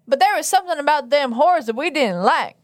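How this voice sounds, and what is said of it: Put-on Southern American accent. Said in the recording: “Do I have to read it in my southern accent?”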